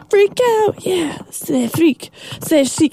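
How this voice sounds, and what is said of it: Imitates a band's singing. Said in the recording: “I don't do it as good as, chic does, but that was my impersonation”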